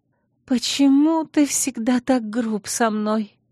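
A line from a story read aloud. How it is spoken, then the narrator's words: Sobbing. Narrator (Russian): всхлипнула Наэла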